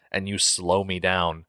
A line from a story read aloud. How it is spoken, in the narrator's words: snarled at the child